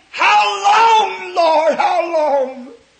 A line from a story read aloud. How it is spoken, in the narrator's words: the souls of those mothers and so forth we spoke of this morning, just under the altar of God are screaming